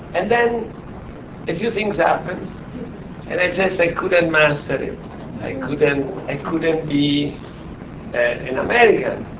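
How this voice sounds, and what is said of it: Italian accent. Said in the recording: “I'm still Italian. Your accent, my accent clearly reveals me”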